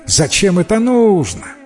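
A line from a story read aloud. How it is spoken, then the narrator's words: Laughing. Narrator (Russian): Засмеялся Назир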